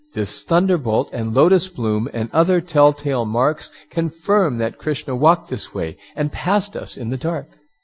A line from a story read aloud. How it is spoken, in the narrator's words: The gopis exclaimed excitedly